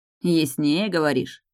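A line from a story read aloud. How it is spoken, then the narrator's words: Asking to clarify. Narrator (Russian): уточнил Золотоволосый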